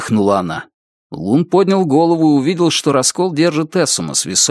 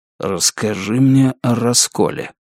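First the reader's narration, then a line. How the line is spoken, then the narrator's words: Whisper. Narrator (Russian): она прошептала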